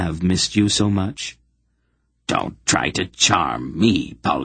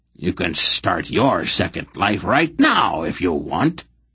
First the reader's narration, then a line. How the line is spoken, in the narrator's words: he growled threateningly